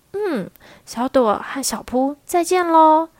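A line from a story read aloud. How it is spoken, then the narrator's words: Gentle. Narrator (Chinese): 地毯姐姐温柔的说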